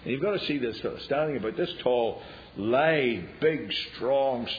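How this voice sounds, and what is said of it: Usual voice. Nothing is said of it.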